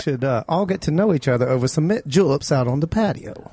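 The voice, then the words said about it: Put-on Southern gentleman accent. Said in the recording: “Southern Gentleman with a gay accent”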